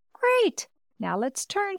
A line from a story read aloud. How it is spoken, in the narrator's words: exclaimed